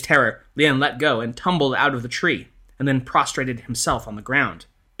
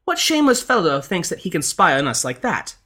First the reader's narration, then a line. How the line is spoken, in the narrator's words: the lady cried out